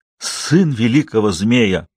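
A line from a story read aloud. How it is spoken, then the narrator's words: Joyful hoot. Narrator (Russian): радостно ухнул Камуза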